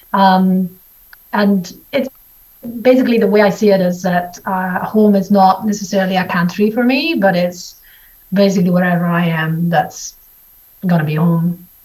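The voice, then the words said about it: Mixed Italian and Scottish accent. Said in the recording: “I heard the Italian in there ... you have the, you know, the Scottish and everything going on”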